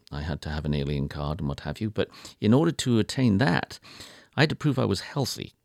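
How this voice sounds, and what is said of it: Non-native foreign accent. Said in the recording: “As is evidenced by my accent, I was not born in the United States”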